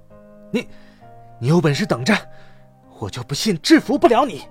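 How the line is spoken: Furious, exasperated. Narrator (Chinese): 栾忍无可忍，怒不可遏的说

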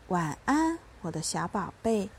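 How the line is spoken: Gentle. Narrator (Chinese): 妈妈温柔地说

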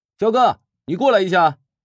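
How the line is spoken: Sudden call from afar. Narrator (Chinese): 突然，乔治从阳台喊了一声

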